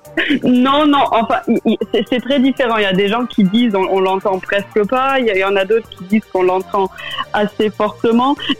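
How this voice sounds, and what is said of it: Slight German accent in French. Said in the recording (French): “Alors on entend ce, petit accent en effet. ... mon accent allemand est devenu plus fort.”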